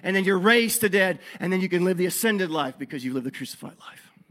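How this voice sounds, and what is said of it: Breathless, winded preaching voice. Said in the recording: “I'm out of breath.”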